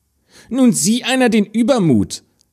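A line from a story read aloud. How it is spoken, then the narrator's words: Stepsister calling out. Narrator (German): rief die Stiefschwester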